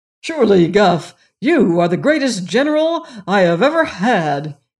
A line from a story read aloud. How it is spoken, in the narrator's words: exclaimed, his eyes sparkling with joy